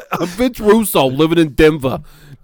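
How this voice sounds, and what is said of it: Put-on Denver accent. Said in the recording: “Don't you like living my Denver accent?”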